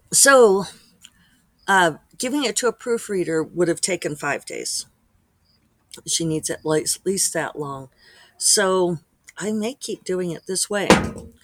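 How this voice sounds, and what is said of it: Slightly hoarse, froggy voice. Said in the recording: “you could probably hear in my voice that I'm a little bit froggy”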